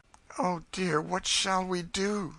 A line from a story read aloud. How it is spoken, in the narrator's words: said Eliza mournfully